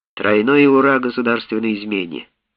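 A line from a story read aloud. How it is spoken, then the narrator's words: Calm. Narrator (Russian): спокойно сказал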